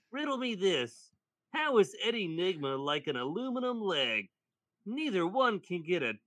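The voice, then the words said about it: Riddler character voice. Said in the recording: “doing a voice for him”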